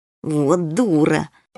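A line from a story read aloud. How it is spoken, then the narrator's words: Through gritted teeth. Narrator (Russian): процедил сквозь зубы полосатый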